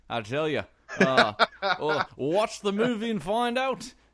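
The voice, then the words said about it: Put-on accent slipping into British. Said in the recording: “I'm like almost nailing it, the accent. ... you slip it into like proper British.”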